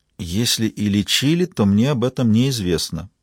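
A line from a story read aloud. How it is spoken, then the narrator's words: Quiet reply. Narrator (Russian): тихо ответила она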